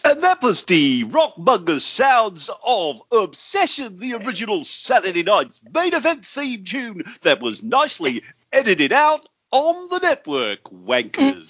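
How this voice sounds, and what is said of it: Radio DJ voice. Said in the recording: “my uh, best well, ... radio DJ voice.”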